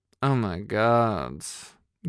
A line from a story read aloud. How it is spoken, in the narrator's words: Gary muttered